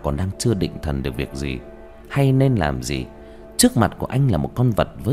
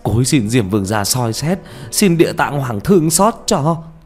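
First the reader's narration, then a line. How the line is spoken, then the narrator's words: Tearful wailing. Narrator (Vietnamese): Ông gào lên trong nước mắt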